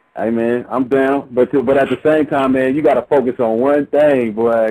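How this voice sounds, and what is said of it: Deep radio-style voice. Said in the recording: “he got a radio voice”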